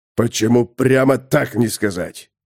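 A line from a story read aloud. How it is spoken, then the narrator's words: Snort. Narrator (Russian): фыркнул Тулгурт мудрый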